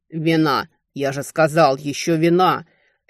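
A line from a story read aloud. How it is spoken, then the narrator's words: Furious thundering. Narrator (Russian): яростно прогремел Хантабесир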